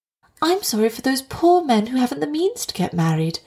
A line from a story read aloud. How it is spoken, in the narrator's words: replied his demure little wife kindly